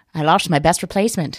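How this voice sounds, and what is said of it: Bad Johnny Carson impression. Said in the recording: “my best Johnny Carson impression and it was bad”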